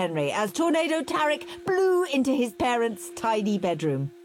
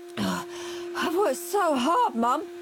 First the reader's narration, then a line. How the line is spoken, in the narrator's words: gasped Henry